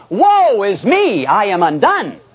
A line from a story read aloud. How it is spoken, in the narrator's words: cried out